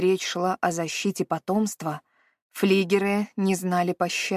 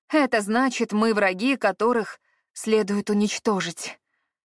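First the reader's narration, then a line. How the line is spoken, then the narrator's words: Sighing. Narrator (Russian): вздохнула Эовин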